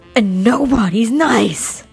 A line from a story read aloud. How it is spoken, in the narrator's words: half screamed